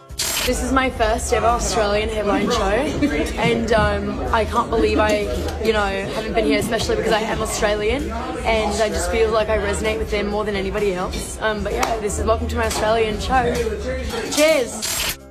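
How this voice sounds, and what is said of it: Put-on Australian accent. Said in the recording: “her doing her Aussie accent ... If I didn't know what she sounded like, I'd think she maybe was Australian ... I was going to give it more Kiwi”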